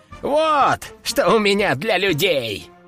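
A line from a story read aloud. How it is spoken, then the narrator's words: Loud laughing. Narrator (Russian): расхохотался он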